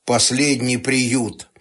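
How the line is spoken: Grim joking. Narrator (Russian): мрачно пошутил Борька

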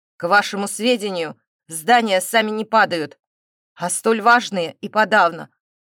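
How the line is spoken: Growling. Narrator (Russian): прорычал тот

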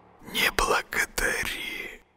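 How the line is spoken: Barely audible. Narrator (Russian): донеслось до него, едва слышно

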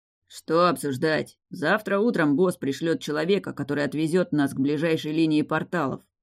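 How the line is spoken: Displeased grumble. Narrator (Russian): пробурчал еще более недовольный Раф

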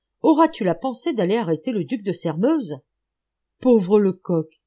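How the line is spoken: Exclaimed. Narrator (French): s'écria-t-il

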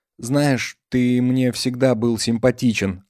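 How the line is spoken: Tender female speech. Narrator (Russian): ласково сказала Калина

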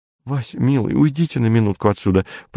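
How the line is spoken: Pleading, faltering voice. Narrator (Russian): пролепетала Ольга умоляюще

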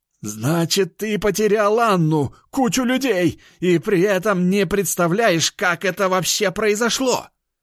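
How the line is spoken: Shouting into phone. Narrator (Russian): кричал он в телефон

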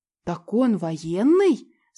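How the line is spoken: Delighted girl's exclamation. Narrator (Russian): с восторгом воскликнула младшая из сестер

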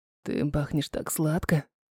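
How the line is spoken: Whisper in ear. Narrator (Russian): на ухо шепнул Леон

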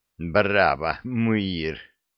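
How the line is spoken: Contemptuous, through teeth. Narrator (Russian): процедил Перри с презрительной ухмылкой

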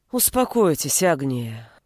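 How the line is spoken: Sighing. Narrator (Russian): вздохнула Лицкевичус, прекрасно знавшая о моем отношении к детям

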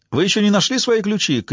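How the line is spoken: Shout after someone. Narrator (Russian): крикнул ей вслед комендант

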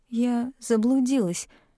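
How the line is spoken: Hesitant mumble. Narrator (Russian): промямлила я, стараясь не отводить взгляд

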